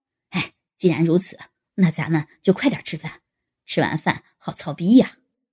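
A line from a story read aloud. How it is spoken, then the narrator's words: Laughing. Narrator (Chinese): 沈真男笑道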